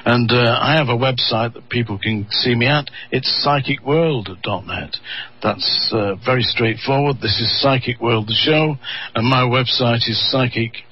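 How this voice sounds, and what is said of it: Manchester English accent. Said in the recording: “I'm in Lancashire ... I spent my formative years in the city of Manchester ... Manchester in the United Kingdom, that's where this accent is from.”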